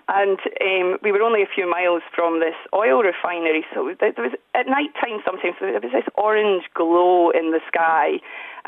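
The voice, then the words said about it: Scottish accent. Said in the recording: “I grew up in Scotland, you'll hear from the accent”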